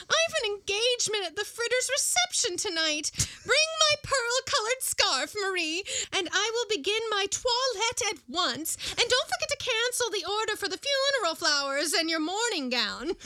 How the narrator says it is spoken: she exclaimed

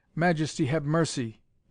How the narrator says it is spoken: gasped Moreau

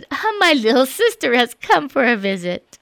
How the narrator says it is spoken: She laughed and said

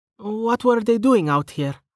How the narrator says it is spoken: Rain sighed

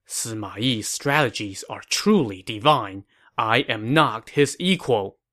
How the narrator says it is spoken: Stunned, Guo Huai could only mutter to himself

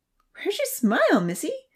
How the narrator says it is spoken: Santa asked, laughing

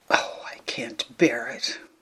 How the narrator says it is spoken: whispered Nanny under cover of the hearty laughter

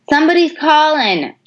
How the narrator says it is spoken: hollered through the open window

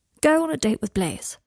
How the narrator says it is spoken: said Draco firmly

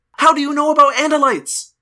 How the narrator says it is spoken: Loren yelled

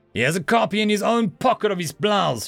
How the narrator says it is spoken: she spat

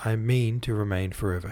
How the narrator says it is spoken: he said

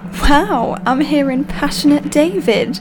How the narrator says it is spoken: I laughed

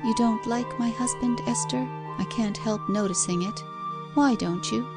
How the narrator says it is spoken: The wife's white, sad, oppressed face … as she murmured in a low voice

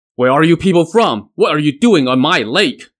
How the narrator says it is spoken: the leader barked at Li Jun

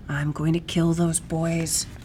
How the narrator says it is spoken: she muttered into the heavy air

